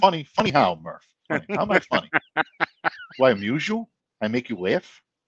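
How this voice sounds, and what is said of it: Imitates a movie character's voice. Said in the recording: “that impression ... if you've seen the movie, you know the rest”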